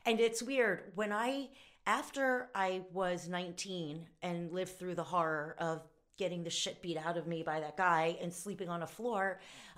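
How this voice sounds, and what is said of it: Slightly hoarse, strained voice. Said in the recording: “I'm losing my voice a little bit from talking a lot”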